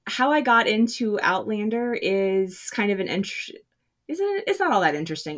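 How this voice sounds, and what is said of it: American Southern accent. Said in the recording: “if you can't tell by my accent, I'm from the South, the American South.”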